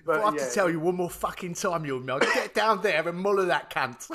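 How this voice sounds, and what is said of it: Cockney gangster accent. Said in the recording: “Why could you not just be Cockney though? ... He should have just been a Cockney gangster.”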